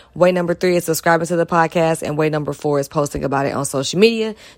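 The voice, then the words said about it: Slightly hoarse, strained voice. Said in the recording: “my voice is a little off. I was kicking it with my family and just yelling”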